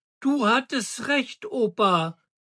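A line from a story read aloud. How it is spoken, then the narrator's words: Excited shout. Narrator (German): rief Daniel begeistert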